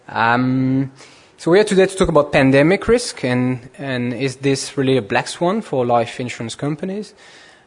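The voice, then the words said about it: French-accented English. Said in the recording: “Maybe I should apologize in advance for my French accent.”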